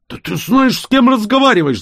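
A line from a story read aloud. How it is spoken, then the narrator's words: Yelled. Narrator (Russian): заорал он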